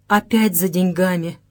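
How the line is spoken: Near moan. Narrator (Russian): чуть не простонала Соня

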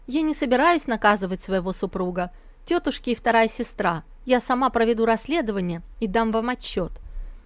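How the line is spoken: Declared. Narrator (Russian): Сусу заявила

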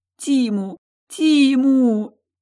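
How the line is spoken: Sobbing. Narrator (Russian): Прорыдала я

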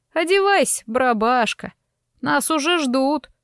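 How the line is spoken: Shout, then laughter. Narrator (Russian): крикнула с лестницы и снова расхохоталась

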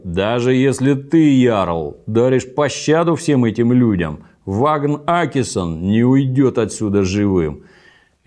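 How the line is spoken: Furious roar. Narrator (Russian): Торкель Глина был во гневе и проревел

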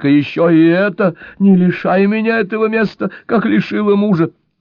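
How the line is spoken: Pleading. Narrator (Russian): Взмолилась Анжелика

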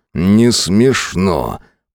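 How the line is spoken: Growled. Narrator (Russian): прорычал я

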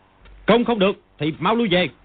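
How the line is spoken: Loud shout. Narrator (Vietnamese): Đạo sĩ sắm vai sau Thiên Khu quát to

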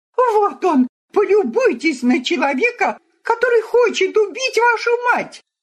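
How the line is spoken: Screaming. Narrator (Russian): завопила

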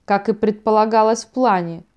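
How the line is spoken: Gloomy remark. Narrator (Russian): мрачно заметил Лев

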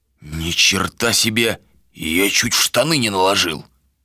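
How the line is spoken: Muttered. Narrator (Russian): пробормотал Драго

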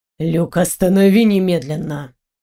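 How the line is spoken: Breathless exhale. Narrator (Russian): выдохнул Антуан

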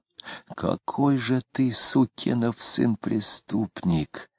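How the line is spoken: Furious whisper. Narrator (Russian): яростно шептал он

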